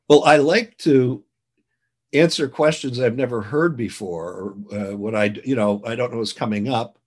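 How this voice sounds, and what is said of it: Slightly fuzzy, worn voice. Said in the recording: “16 straight hours of interviewing. So my voice is a little fuzzy.”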